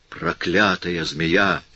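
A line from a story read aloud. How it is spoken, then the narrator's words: Furious, jealous whisper. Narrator (Russian): прошептала Айя вне себя от злобы, бешенства и ревности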